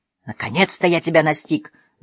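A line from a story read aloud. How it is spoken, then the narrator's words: Growl. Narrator (Russian): зарычал Мануэль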